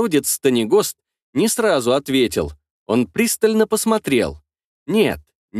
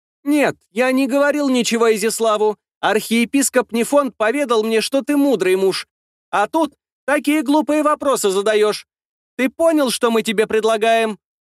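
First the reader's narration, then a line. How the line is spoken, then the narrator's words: High ringing voice. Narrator (Russian): Прозвенел своим высоким голосом Станегост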